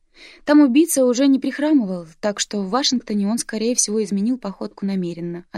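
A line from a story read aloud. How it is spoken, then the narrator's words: Plain. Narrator (Russian): ответила Брэк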